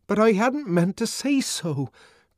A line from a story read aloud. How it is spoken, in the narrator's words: cried the savage in a kind of agony